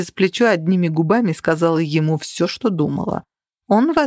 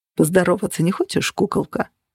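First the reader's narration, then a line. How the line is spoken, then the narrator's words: Purring. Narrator (Russian): промурлыкал Джен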